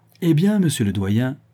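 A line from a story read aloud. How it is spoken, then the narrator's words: Triumphant tone. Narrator (French): dit l'archidiacre d'un ton triomphant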